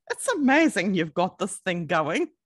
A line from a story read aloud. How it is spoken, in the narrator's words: A mechanic was there and he laughed and said